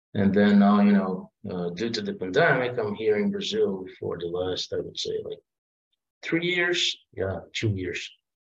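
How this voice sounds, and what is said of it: Brazilian-Italian accented English. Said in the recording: “We love your accent ... I'm from Brazil. I'm a half Italian, half Brazilian guy”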